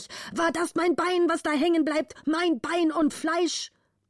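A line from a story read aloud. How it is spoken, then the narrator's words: Angry father shouting. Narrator (German): schrie der Vater zornig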